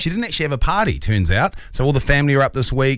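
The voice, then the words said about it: New Zealand accent. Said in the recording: “this Kiwi accent”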